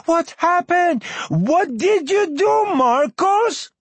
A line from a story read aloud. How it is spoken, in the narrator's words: Mama running upstairs yelling